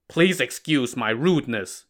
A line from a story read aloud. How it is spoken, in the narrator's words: Zhishen said